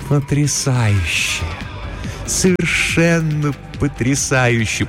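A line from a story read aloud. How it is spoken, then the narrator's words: Deep purring in ear. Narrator (Russian): промурлыкала она ему в ухо, и глубокий тембр ее голоса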